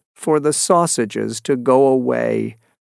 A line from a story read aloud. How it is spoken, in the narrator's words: said the fisherman sadly